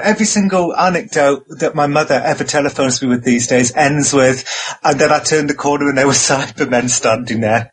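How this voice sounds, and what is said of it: Manchester, Northwest England accent. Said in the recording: “I picked up the Manchester accent. And so I think my accents are kind of... it's a kind of hybrid, but mainly Northwest England.”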